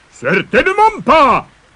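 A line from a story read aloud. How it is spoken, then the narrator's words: Monster roaring again. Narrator (French): rugit à nouveau le monstre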